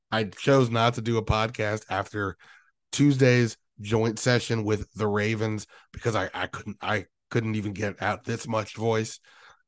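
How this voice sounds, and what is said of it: Hoarse, strained voice. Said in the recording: “It may not sound like me ... lost my voice. I don't know how I sound right now. I hope it's not nails on the chalkboard for you guys.”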